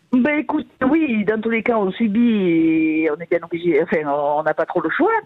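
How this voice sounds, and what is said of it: Regional French accent. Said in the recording (French): “J'adore voilà. L'accent.”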